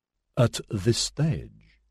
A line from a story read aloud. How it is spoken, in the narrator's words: Sajaki spoke so softly, she largely read his lips